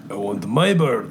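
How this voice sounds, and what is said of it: Russian-accented Mickey Rourke impression. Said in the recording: “Mickey Rourke... We're using a Russian accent.”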